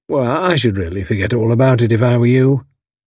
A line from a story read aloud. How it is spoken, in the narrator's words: said soothingly